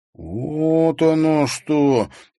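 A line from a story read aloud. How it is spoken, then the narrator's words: Drawn-out, drawling. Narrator (Russian): протянул Димка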